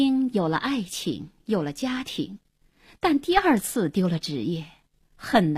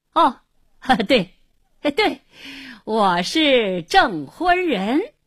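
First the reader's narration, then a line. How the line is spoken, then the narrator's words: Forced hearty laughter, repeated. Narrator (Chinese): 故意哈哈大笑，连声说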